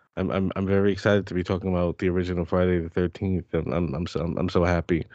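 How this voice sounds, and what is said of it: Sarcastic, unenthusiastic delivery. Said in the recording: “can you hear the excitement in my voice?”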